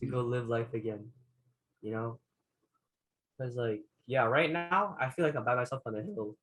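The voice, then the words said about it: Emotional voice cracking. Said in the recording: “I hear my voice cracking.”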